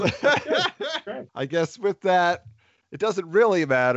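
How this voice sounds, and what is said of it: Usual voice. Nothing is said of it.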